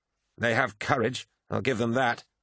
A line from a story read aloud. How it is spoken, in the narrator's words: muttered to himself